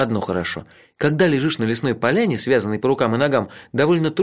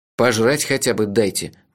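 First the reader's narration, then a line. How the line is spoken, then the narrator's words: Gloomy. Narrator (Russian): мрачно сказал я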